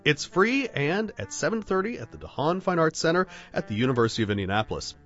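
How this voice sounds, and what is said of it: Congested, stuffed-up voice from a cold. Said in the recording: “you have a little bit of a cold right now ... a stuffed up lion”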